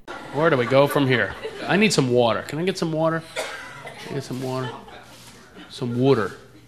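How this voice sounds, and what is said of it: American East Coast accent. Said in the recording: “I'm from back east. That's why I talk like that. ... People make fun of my accent all the time.”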